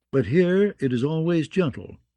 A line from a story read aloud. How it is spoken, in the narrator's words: the kindly man told her